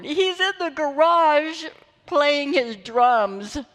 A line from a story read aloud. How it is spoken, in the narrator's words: Sarah just wailed on the phone